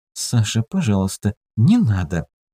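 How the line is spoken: Embarrassed whisper. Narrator (Russian): она смущенно прошептала

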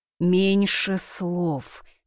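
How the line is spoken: Sighed. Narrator (Russian): вздохнула она

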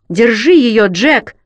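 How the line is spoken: Shout into emptiness. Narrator (Russian): крикнул я в пустоту

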